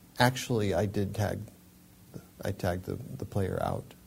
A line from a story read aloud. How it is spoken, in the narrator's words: Tanner quietly said